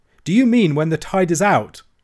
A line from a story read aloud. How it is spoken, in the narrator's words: I cried, and could not finish